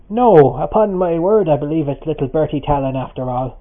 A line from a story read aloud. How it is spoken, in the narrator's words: he exclaimed